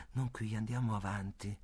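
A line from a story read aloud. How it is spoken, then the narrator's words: Murmured. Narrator (Italian): ella mormora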